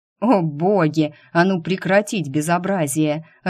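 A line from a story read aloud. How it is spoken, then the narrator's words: Growled. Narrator (Russian): рыкнул Дайм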